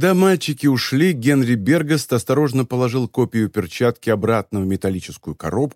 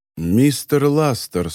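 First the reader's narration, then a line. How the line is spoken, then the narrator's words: Calm. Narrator (Russian): спокойно сказал Бергаст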